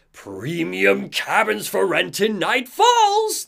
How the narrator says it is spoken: the figure shouts

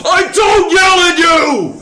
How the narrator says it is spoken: Adam Sandler, in front of all of his friends and family, yells at his daughter

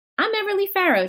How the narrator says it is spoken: she said in her perkiest tone

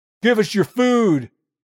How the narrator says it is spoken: someone else yells

